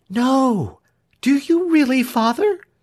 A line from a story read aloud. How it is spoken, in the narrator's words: cried his pet daughter